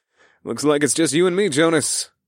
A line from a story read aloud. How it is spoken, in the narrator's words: I chuckled